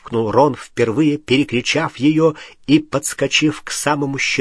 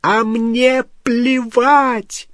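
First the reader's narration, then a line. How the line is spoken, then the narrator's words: Screaming. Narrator (Russian): завопила Гермиона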